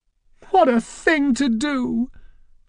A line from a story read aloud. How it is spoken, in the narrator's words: Francine began to cry hysterically